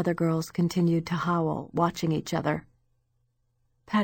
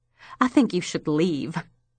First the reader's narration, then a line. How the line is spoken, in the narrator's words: snapped Mrs